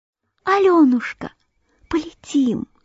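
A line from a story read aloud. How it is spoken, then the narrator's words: Ladybug's whisper. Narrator (Russian): шепнула божья коровка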